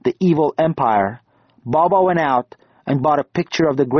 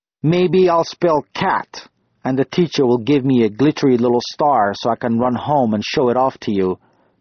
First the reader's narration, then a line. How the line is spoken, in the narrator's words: he'd grumble